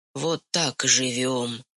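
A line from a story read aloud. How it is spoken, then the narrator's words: Whispered. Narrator (Russian): шепнул он Онюшке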